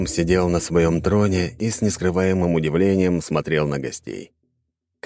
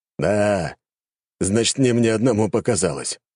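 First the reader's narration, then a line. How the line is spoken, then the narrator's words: Old man exclaiming. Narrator (Russian): воскликнул старик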